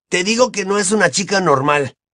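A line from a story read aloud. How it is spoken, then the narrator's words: Exclaiming. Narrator (Spanish): exclamó Ron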